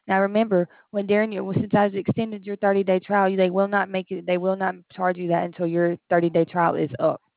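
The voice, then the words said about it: Southern American accent. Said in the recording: “I thought you had a southern accent.”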